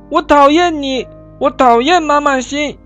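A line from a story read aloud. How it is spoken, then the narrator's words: Loud. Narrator (Chinese): 阿志大声地对老师说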